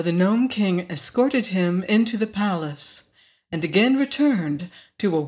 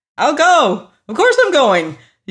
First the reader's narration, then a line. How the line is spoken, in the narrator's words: yelled the general as quick as scat